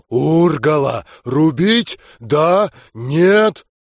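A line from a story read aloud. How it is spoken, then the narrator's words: Angry deliberately garbled growl. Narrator (Russian): злобно, намеренно косноязычно рыкнул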